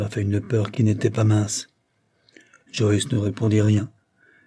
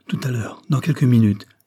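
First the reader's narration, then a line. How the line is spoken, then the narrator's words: Trembling exclamation. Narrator (French): s'écria Joyce, en frissonnant réellement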